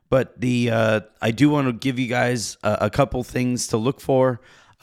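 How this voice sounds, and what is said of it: Voice strained by allergies. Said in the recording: “As you can hear, my voice is still not exactly 100% allergies out here”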